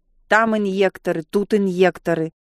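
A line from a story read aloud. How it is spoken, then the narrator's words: Displeased grumble. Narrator (Russian): недовольно проворчала она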